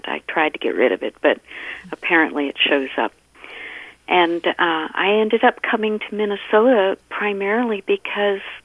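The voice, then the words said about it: Slight US East Coast accent. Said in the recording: “I grew up back east in Maryland and Virginia. And that's why I know I still have a little bit of an accent.”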